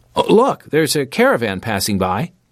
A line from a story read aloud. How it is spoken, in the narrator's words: he exclaimed